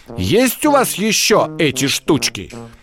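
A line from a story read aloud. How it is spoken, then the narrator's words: Stern question. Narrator (Russian): строго спросил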